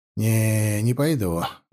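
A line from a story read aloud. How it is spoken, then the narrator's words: Sigh. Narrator (Russian): вздохнул Алексей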